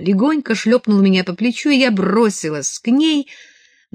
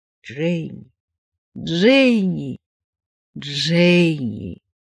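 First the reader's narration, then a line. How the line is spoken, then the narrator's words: Repeated whispering. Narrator (Russian): Она снова и снова шептала мое имя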